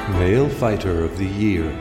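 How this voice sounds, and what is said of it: Soothing, sexy announcer voice. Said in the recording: “Such a soothing, sexy voice”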